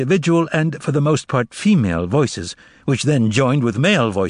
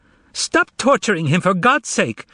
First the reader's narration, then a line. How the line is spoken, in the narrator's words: shouted a woman